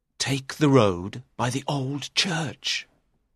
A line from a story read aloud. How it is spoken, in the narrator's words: Richard whispered